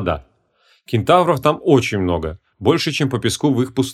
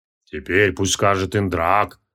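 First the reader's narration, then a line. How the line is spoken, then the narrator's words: Deep bass, old man. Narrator (Russian): пробасил старый Дживарука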